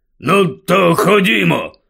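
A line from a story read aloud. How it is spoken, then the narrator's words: Uncle grumbling. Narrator (Ukrainian): буркнув дядько Вернон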